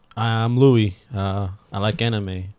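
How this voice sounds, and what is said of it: Low-toned imitation of another person. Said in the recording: “I just give you that low tone voice”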